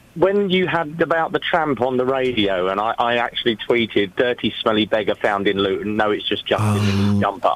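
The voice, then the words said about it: Posh, nasal telephone voice. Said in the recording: “you sound different. What have you done with your voice? ... It's probably my telephone accent. I sound a lot posher on the phone than I do when I DJ. ... You sound quite nasally.”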